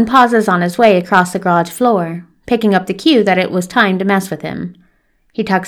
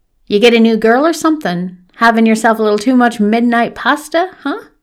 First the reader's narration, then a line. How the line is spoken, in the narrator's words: Sean cackles